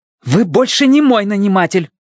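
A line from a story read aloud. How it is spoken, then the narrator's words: Sharp objection. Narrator (Russian): резко возразила Сун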